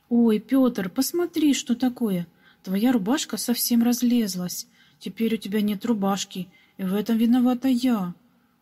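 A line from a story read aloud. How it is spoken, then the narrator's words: Regretful exclamation, young girl. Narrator (Russian): Вдруг с сожалением воскликнула маленькая прачка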